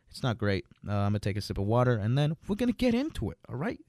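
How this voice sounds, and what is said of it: Slightly sick, off-sounding voice. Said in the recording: “I'm a little bit sick. So I may start coughing a little bit during this episode. ... My voice may sound a little bit different, you know, a little bit weirder ... I just feel sick a little bit”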